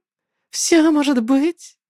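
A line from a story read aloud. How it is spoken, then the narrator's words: Unusually cheerful. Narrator (Russian): ответила Ксера нехарактерным жизнерадостным голосом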